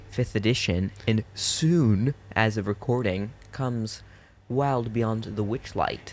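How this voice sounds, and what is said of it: Soft, calm radio voice. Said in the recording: “You've got your soft radio voice on today. ... I've got my soft radio voice on. ... I'm gonna be chill.”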